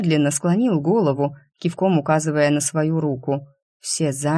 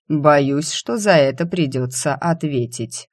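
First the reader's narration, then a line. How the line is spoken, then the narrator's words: Cold. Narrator (Russian): Иномерный принц холодно произнес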